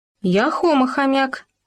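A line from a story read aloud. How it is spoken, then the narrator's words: Squeak. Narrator (Russian): пискнул Хома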